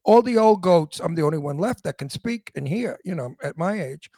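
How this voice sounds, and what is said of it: Old-fashioned Brooklyn accent. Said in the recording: “they hire me for my Brooklyn accent ... My Brooklyn accent is called Antique Brooklyn. The young people in Brooklyn don't speak like this anymore ... it is an antique accent”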